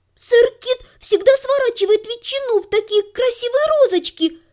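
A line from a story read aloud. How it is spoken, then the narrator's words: Boy squeaked. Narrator (Russian): пропищал мальчишка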